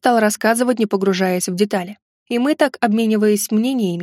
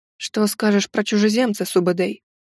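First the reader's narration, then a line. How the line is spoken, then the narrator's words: Quiet, elder speaker. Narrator (Russian): также тихо обратился старший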